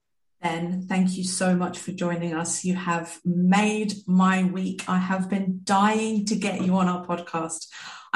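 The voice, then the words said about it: Excited, animated voice. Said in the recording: “You can hear it in my voice because of how excited I am.”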